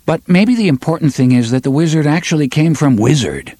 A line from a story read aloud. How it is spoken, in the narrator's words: Roland asked sharply